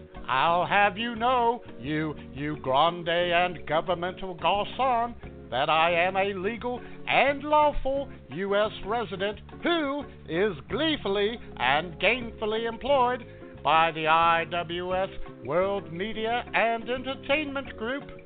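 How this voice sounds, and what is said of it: Funny foreign accent. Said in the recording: “You got a funny accent.”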